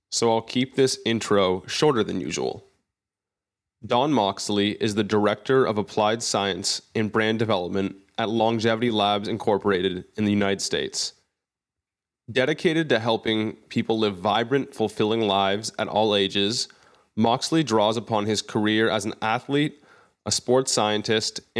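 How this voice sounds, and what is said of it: Voice slightly off after illness. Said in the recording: “my voice sounds a little off, it's because I caught a certain respiratory illness late last week. I've now recovered, but my voice is a little behind”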